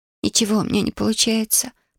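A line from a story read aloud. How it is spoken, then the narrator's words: Whisper. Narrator (Russian): прошептала она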